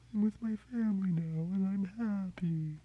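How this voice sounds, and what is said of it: Creepy whispering manatee voice. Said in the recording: “a whispering manatee ... any kind of creepy, whispery voice”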